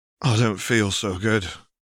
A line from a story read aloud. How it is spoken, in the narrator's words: he mutters